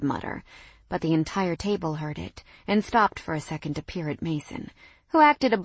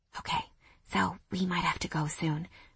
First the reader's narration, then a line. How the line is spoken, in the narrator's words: I whispered in his ear, hardly able to contain my amusement